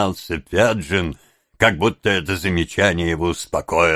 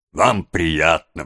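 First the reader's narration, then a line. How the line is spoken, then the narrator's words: Exclamation. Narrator (Russian): воскликнул Сайкс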